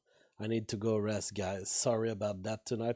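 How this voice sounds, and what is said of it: Weak, strained voice. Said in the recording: “my voice is so weak ... I had lost my voice”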